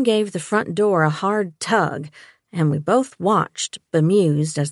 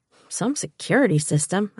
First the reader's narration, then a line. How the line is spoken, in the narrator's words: I muttered